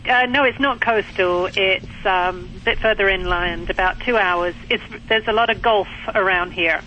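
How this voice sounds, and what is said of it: British accent. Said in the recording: “It's a British accent.”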